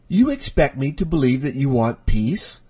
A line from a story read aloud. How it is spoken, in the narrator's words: Amy spat at the old man